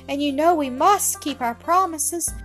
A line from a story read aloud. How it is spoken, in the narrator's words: sobbed Ethel